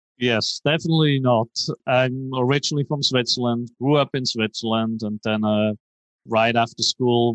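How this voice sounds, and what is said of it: Foreign, non-Texan accent. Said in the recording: “as soon as he opens his mouth, you're probably going to hear he's not from Texas originally ... that's not a very heavy Texas Texas accent I hear there”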